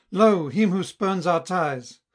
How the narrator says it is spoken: one ... cried

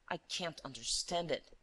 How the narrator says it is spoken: murmured Monsieur d'Imblevalle, astounded

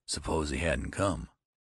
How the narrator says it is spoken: whispered Metzer hoarsely

